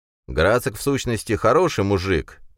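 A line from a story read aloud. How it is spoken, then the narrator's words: Cheerful. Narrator (Russian): продолжал Юрген весело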